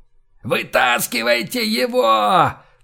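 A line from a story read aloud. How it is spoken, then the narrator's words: Shouting with full force. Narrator (Russian): прокричал изо всех сил Кэп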